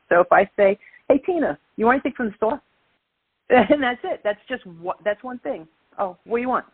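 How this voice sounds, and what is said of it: Brooklyn accent. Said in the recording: “my Brooklyn accent ... I've worked on dropping my Brooklyn accent a lot ... but I could turn it up”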